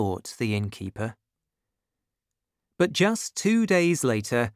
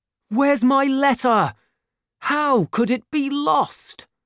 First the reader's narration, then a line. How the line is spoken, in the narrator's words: he cried